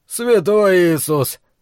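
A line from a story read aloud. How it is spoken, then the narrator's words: Breathed out. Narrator (Russian): выдохнул Бейкер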